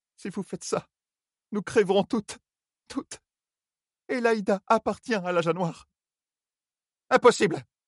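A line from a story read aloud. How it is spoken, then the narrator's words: Exclaimed. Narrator (French): s'écria Séhein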